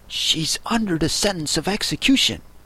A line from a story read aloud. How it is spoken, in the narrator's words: He looked anxiously over his shoulder as he spoke, and then raised himself upon tiptoe, put his mouth close to his ear, and whispered